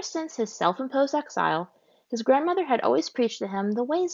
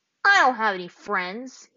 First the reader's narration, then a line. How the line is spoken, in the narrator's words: he snapped